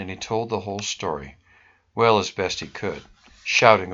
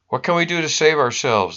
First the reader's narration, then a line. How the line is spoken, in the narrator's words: the sailors cried